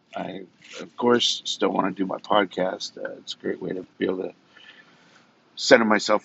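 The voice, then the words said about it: Slightly off, tired voice. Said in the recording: “ever since I've been sick, long time, my voice has been a little off ... I'm a little bit tired”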